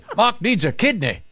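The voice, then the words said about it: Unidentified put-on accent. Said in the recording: “I'm not sure what accent that is. ... Offensive. ... I'm not good at accents.”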